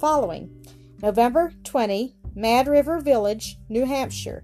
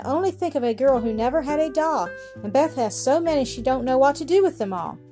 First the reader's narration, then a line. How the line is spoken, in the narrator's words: sighed